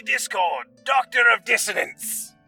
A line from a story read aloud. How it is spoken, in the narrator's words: roared the man